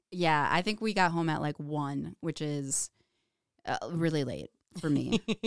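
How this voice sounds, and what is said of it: Slightly crackly, hoarse voice. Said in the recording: “My voice is still kind of a little crackly after all the yelling ... but not too bad”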